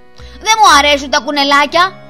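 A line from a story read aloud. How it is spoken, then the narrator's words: Quick shout. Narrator (Greek): φώναξε αμέσως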